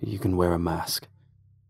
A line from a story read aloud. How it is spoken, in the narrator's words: he murmured